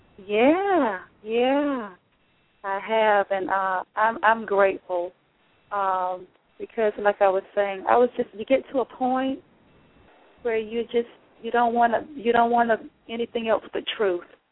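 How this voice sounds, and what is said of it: Southern US accent. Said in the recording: “that beautiful accent had to come from the South”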